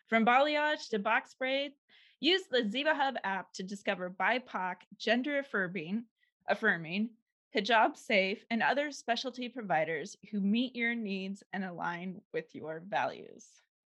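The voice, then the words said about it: Public radio announcer voice. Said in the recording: “You put your NPR voice back on.”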